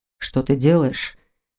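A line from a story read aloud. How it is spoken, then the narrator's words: Quiet. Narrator (Russian): Тихо проговорил Непогодин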